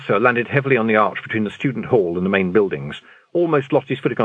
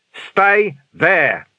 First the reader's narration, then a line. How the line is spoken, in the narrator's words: Vimes bellowed